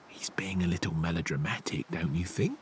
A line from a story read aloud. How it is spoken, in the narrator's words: the tree frog whispered